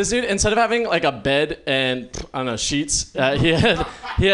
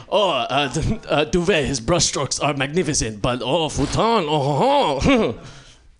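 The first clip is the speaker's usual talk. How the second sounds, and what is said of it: Put-on French accent. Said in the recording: “rival French painters ... I need to work on my accent.”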